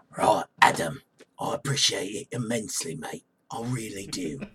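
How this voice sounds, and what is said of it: Imitates another person's voice. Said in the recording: “There's my Jason Statham impression.”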